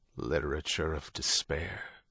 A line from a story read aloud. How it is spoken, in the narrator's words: the Pope muttered